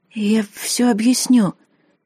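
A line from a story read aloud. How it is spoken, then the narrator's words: Hoarse strained voice. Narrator (Russian): хрипло выдавила я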